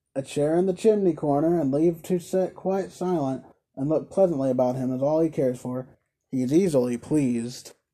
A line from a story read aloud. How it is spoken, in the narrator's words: he added in his natural tone